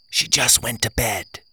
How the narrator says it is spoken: I whispered

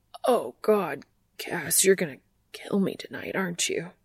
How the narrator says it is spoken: he stutters

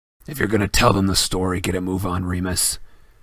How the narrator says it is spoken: snarled Black

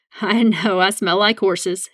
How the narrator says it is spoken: he laughed

